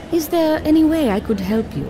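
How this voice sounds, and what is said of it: British accent. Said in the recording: “A Chinese lady with a British accent.”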